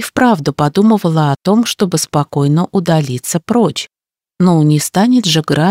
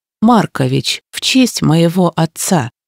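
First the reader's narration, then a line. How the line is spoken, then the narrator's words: Calm reply. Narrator (Russian): откликнулась спокойно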